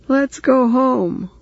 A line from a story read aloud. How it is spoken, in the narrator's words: Roy wailed